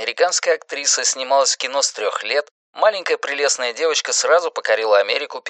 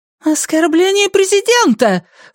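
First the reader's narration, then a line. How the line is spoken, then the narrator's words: Exclamation. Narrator (Russian): воскликнула Бинс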